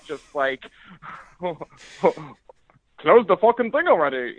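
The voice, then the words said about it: Imitates another person's voice. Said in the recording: “a terrible wavy. Impersonation.”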